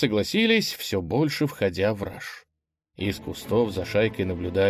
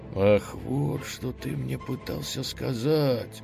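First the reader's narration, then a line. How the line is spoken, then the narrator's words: Donkey whispering. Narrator (Russian): шепотом проговорил ослик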